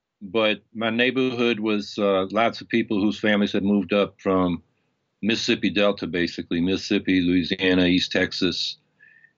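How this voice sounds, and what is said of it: Non-local regional dialect. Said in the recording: “your dialect belies uh, a different uh, uh, upbringing”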